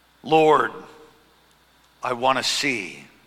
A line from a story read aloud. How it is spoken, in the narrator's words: he replied